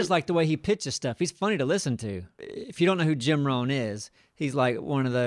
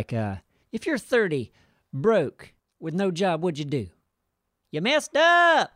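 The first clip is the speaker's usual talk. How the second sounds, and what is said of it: Imitates another person's voice. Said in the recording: “Do a little impression ... he's a character”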